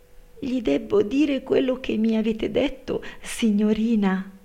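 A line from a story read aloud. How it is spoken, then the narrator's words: Frightened maid stammering. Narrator (Italian): balbettò la servetta spaventata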